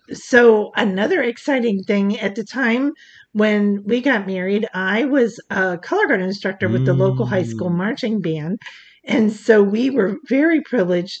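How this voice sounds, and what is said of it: Froggy, rough voice. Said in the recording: “my voice is really terrible... I'm kind of froggy”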